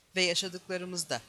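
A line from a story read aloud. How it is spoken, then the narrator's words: Plain. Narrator (Turkish): dedi Sinan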